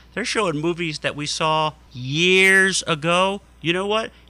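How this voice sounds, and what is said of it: Usual voice. Nothing is said of it.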